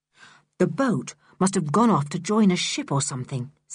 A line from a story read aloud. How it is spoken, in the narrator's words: said Julian